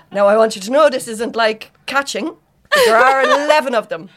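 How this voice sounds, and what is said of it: Put-on Irish accent. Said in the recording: “I don't know ... What accent that was.”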